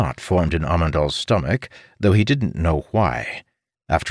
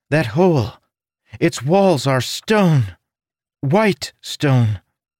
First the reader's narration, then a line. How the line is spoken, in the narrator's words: Villenia said with a gasp